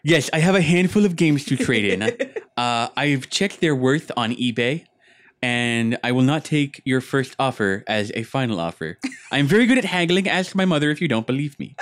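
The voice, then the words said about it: Put-on nerdy voice. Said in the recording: “the nerd voice”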